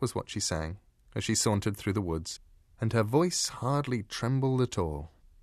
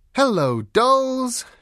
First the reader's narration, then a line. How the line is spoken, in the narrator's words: she said brightly